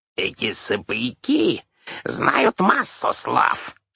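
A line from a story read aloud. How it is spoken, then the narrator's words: Unnaturally high voice. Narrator (Russian): сказала Ширли своим ненатурально высоким голосом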